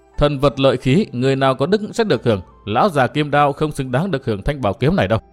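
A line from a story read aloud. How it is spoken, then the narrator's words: Scornful laugh, clear distant voice. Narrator (Vietnamese): có tiếng cười nhạt và có tiếng nói rất thánh thoát vọng tới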